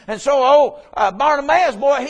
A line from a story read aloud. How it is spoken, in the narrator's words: he cried